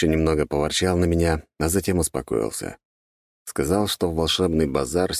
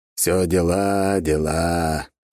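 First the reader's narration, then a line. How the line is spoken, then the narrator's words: Old man grumbling. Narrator (Russian): проворчал дед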